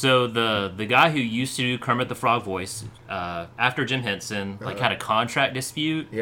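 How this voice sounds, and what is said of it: Usual voice. Nothing is said of it.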